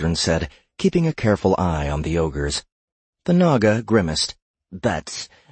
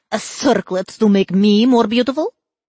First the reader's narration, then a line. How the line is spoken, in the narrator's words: She scoffed at the idea